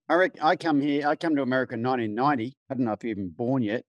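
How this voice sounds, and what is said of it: Australian accent. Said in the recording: “Good to hear an Aussie accent again... I'm impressed how good you've kept yours on”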